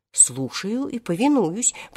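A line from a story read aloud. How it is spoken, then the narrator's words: Repeated. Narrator (Russian): повторил Хоттабыч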